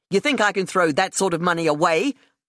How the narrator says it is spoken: I snapped at her

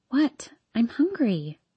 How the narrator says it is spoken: I whisper

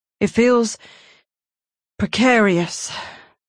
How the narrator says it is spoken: Alexis muttered

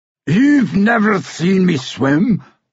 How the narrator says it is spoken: the dwarf all but roared

